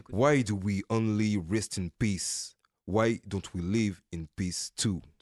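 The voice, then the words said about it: French speaker with American accent. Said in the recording (French): “Depuis quand t'as un accent en anglais? ... It's not an English accent, you know. American accent.”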